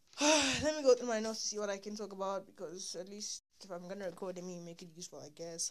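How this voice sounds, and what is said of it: Tired, low-energy voice. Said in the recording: “I don't have energy to talk for too long. I'm tired. Like my voice is tired.”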